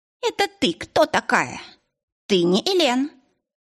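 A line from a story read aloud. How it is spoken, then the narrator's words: Belligerent squeak. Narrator (Russian): пропищал воинственно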